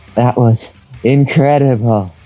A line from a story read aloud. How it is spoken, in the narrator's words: she panted happily